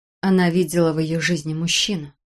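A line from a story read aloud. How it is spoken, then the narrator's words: Whisper. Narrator (Russian): прошептал я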